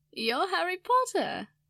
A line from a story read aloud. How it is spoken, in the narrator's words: she said with a laugh